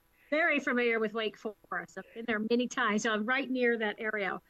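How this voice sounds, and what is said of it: Slight regional accent. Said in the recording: “you'll hear a slight accent. I can't get rid of it... You're still going to have that accent”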